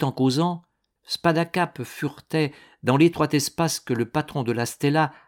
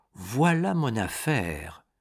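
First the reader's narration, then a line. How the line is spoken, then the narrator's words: Murmured. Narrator (French): murmura-t-il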